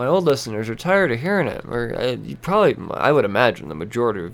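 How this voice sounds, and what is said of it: Usual voice. Nothing is said of it.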